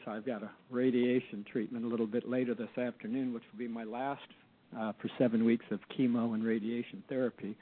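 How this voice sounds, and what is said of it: Raspy, strained voice. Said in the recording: “Apologize for my voice ... my raspy-sounding voice”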